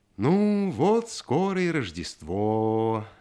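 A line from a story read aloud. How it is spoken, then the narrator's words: Sing-song father. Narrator (Russian): говорил нараспев отец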